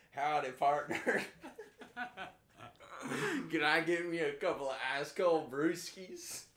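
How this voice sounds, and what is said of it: Exaggerated fake Southern accent. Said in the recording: “fake south, southern accent ... accentuating his southern accent”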